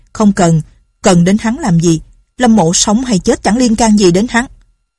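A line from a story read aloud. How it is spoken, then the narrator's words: Loud voice. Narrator (Vietnamese): Lâm Bình Chi lớn tiếng nói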